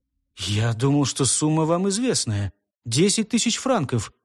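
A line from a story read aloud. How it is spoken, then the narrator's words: Mumbling, livening up. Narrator (Russian): пробормотал Брук, оживляясь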